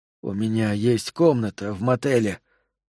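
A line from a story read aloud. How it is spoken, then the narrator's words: Hoarse. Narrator (Russian): хрипло произнес Сол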